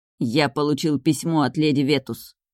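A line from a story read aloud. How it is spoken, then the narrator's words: Through gritted teeth. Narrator (Russian): сквозь зубы сообщил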